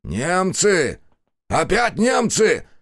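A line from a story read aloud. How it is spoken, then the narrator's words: Yelling. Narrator (Russian): заорал Демьян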